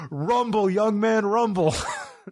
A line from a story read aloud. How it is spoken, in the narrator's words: Joe just yells